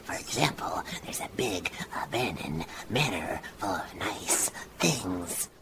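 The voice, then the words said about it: Whispering. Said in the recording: “whispering in your ear”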